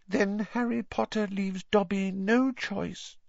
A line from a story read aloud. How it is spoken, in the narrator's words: said the elf sadly